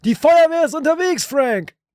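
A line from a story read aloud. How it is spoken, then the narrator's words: Shout. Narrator (German): Winston schrie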